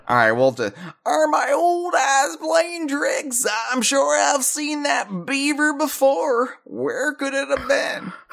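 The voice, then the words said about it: Old cartoon character voice. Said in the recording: “I gotta do the voice ... That's not the same voice you were doing earlier, but I think it's an improvement.”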